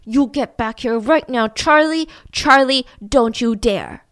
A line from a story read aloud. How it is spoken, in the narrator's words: Josh starts yelling through the store